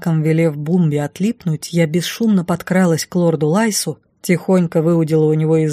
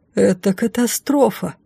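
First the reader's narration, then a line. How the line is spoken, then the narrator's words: Breathless exhale. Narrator (Russian): выдохнул Рыжик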